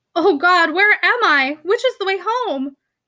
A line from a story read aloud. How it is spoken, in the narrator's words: she cried out in the dim loneliness